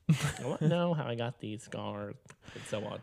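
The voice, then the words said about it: Joker villain voice with lip smacking. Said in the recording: “the Joker voice ... I find, like, the lip smacking. Here, let me do it on the recording.”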